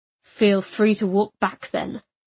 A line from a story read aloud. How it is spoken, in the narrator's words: Arcas answered coldly